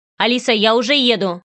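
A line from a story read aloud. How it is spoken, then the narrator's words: Sharp cut-off. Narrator (Russian): резко оборвал он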